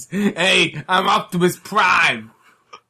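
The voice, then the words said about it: Put-on Queens New York accent. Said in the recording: “the American one sounds like he's from Queens.”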